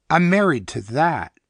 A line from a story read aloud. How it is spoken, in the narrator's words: added very firmly